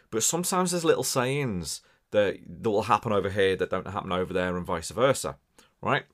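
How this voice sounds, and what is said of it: Scouse-like Merseyside accent, somewhat mixed. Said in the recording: “As much as I sound Scouse and from Liverpool ... we have a very similar accent, although mine can be a little bit mixed up”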